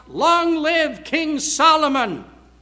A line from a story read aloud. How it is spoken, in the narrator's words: the people shouted